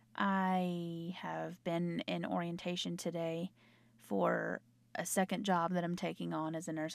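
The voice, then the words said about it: Hoarse voice. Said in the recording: “I sound as hoarse as I do”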